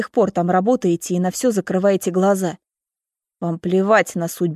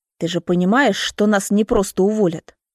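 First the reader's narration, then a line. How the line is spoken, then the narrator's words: Through gritted teeth. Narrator (Russian): цедит сквозь зубы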